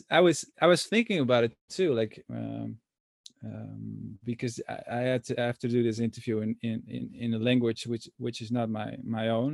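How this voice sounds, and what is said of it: Non-native English accent. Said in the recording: “I have this accent ... I'm not obviously obviously not a native speaker ... when I talk talk in English with an accent”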